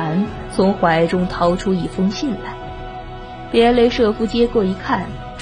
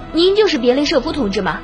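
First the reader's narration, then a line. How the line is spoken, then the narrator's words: Eager young man asking. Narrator (Chinese): 年轻小伙子急忙上前，迫不及待地问道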